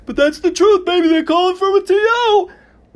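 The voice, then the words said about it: Imitates a sportscaster's voice. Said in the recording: “do a great Dick Vitale impression”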